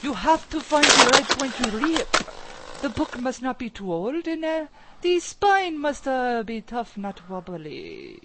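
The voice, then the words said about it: Put-on German accent. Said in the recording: “That's my accent. You like it? ... stop with the accent.”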